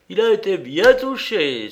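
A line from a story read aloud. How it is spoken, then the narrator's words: Excited exclamation, clapping. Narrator (French): s'écria en frappant des mains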